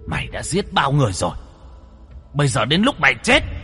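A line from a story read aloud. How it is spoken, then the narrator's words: Loud voice. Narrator (Vietnamese): Bạch Cẩu cũng lớn tiếng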